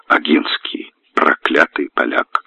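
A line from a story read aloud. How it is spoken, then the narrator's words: Furious whisper. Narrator (Russian): Лимбург в бешенстве шептал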